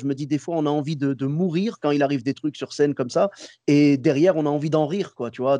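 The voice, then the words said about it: Moroccan-American accent. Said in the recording (French): “J'adore ton accent ... c'est l'accent marocain, marocain-américain”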